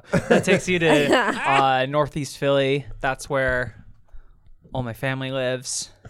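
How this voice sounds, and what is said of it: Surfer bro voice. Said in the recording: “Now I'm doing a surfer, bro.”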